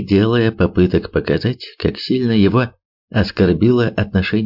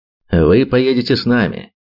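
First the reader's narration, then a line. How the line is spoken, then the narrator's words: Categorical tone. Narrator (Russian): категоричным тоном сообщил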